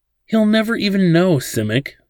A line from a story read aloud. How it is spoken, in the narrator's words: Laddin said pleadingly